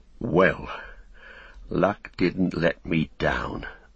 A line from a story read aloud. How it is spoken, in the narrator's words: muttered Sam